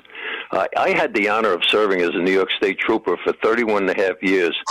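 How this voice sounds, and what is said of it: New York City accent. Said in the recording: “New York City accent”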